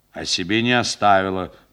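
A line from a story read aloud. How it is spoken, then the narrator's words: Grumbling. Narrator (Russian): проворчал сержант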